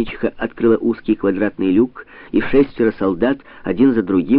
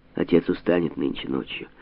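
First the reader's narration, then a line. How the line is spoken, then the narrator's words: Muttering. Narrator (Russian): пробормотала она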